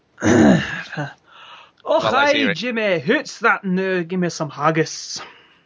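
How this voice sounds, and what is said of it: Bad put-on Scottish accent. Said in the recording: “a pretty bad Scottish accent ... the terrible Scottish accent that you do ... that was really bad ... That was just awful”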